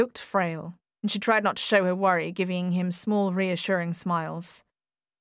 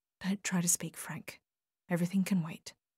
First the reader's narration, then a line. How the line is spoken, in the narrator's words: She whispered close to his face